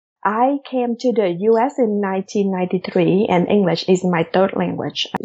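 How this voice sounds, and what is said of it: Non-native, non-Midwestern English accent. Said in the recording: “as you hear this accent here, it's not an Iowa corn-fed accent.”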